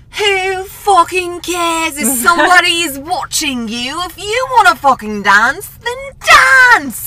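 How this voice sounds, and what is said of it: Put-on British accent. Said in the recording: “this cute British man. I'm going to do a little accent that he does.”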